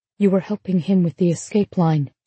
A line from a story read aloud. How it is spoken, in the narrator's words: she said softly